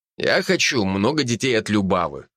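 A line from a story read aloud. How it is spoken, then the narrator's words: Snorting. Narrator (Russian): хмыкнул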